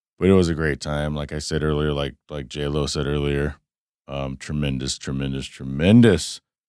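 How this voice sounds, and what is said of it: Hoarse, strained voice. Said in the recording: “My throat hurts. I'm basically losing my voice”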